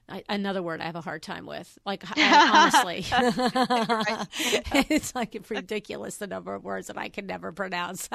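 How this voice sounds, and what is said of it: New York accent. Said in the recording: “You have a sexy New York accent.”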